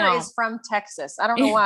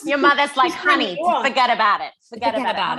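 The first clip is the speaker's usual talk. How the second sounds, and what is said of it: Put-on Long Island accent. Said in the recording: “I just made your mother a northerner ... I acted like she's from Long Island”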